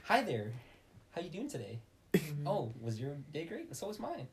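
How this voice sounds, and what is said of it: Put-on stereotypical white customer-service voice. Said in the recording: “My Caucasian white voice.”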